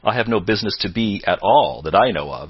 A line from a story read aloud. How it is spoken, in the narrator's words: said Sidney Carton